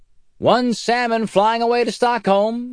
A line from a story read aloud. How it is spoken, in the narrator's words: shouted Wolf